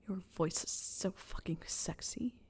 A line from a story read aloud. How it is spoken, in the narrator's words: he growled